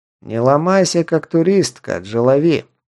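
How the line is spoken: Slightly husky voice. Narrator (Russian): вновь с легкой хрипотцой заговорил

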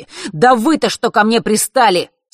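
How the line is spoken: Angry exhale. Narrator (Russian): Сердито выдохнул он

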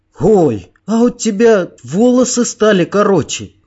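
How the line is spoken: Sudden boy's exclamation. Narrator (Russian): неожиданно воскликнул мальчишка

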